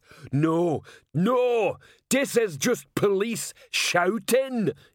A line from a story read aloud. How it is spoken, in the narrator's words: yelled Detritus